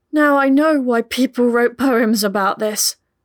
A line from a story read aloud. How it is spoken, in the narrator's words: Pippa managed to gasp out